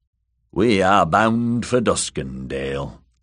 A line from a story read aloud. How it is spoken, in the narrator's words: Sir Ilifer said flatly